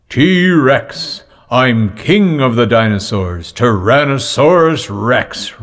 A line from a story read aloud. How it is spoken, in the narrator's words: roared Dad